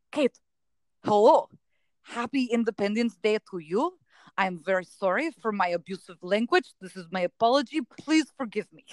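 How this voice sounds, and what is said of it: Put-on foreign accent, well done. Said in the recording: “That accent work is second to none.”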